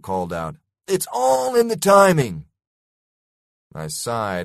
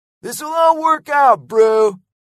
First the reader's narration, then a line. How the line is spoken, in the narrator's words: yelled Lego